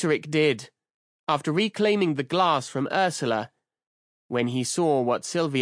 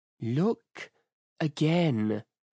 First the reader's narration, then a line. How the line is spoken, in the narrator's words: Sylvia said, her voice like ice